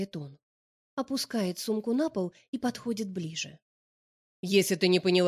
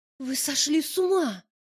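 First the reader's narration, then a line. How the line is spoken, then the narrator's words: Frightened whisper. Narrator (Russian): Шепчу я, испуганно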